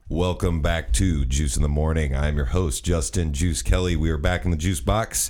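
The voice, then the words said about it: Extra deep voice. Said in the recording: “my voice is extra deep because I drank a lot of beer and smoked a lot of cigarettes last night”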